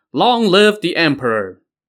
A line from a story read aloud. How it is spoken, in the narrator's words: they shouted